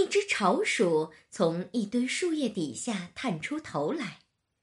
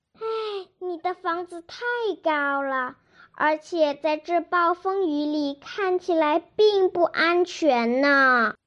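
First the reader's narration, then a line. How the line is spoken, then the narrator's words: Sighing. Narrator (Chinese): 茉莉叹了口气说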